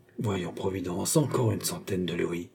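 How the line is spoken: Murmur. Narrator (French): elle murmura

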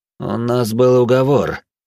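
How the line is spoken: Muttered through clenched teeth. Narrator (Russian): сквозь зубы процедил мужчина

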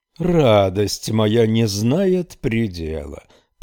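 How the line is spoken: Dwarf's mocking drawl. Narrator (Russian): протянул карлик и насмешливо фыркнул

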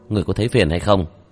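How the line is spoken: Cold, suppressed anger. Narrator (Vietnamese): Vương Quân Diệt hít sâu một hơi, đè nặng tức giận trong lòng, lạnh lùng

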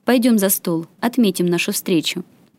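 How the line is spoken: Spoken while walking. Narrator (Russian): проговорил он на ходу

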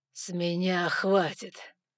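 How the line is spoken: Growling voice. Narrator (Russian): В его голосе все еще слышалось рычание

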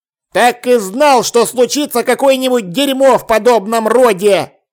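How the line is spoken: Plain. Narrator (Russian): сказал арканцлер

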